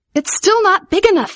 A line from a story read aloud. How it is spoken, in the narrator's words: Vivian cried